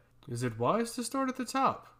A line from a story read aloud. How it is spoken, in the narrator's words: He asked playfully